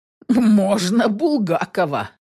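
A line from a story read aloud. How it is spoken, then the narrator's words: Squeezed out through laughter. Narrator (Russian): Сквозь смех выдавливаю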